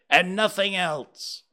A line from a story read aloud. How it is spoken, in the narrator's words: Scrooge triumphantly said